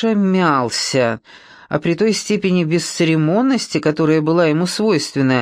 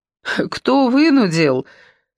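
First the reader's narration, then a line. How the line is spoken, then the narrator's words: Relieved laughter. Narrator (Russian): Ольга облегченно рассмеялась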